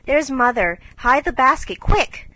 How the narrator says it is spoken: cried Jo

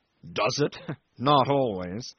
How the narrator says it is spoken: he said with a bitter laugh

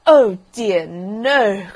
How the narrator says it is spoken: cried the rocket

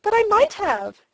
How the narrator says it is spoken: she exclaimed, and began to cry again

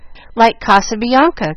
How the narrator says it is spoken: cried Jill, much impressed

